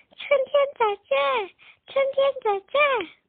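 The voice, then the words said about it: Soft, quiet voice. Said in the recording (Chinese): “小声地说”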